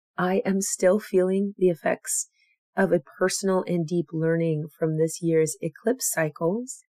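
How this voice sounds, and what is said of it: Recovering voice, still slightly hoarse. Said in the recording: “as you can still hear, is I lost my voice for a couple days, and it is finally coming back”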